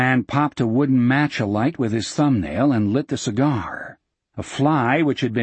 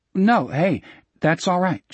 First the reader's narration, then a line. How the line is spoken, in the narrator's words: Jack said nervously